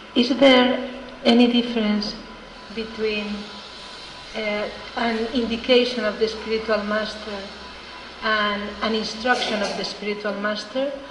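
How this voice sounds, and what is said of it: Strong accent, hard to understand. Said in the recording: “I didn't quite understand it because of your accent.”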